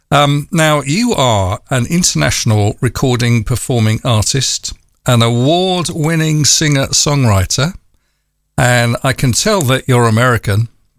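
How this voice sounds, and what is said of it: London English accent. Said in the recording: “you can probably tell I'm from London”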